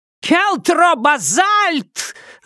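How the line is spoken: Shrieking. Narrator (Russian): завизжала она

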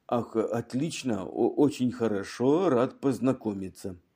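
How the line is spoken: Uncertain mutter. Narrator (Russian): Вновь прибывший пробормотал неуверенно

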